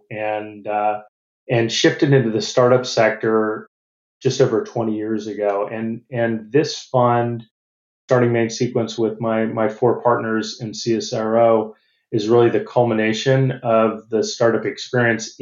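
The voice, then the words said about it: American accent. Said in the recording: “You probably hear from my accent, I'm not Australian. I'm originally from the U.S.”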